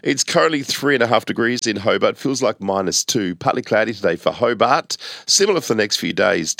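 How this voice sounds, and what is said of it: Slightly off voice, recovering from illness. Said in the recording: “Feeling much better today ... Still a bit of a funny voice, but nice to actually have a voice again.”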